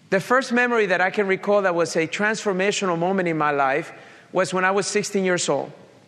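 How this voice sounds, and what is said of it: Colombian accent with Italian tinge. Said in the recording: “you probably picked up by my accent right now. I'm originally from Colombia, South America... I have a Colombian accent with an Italian suit”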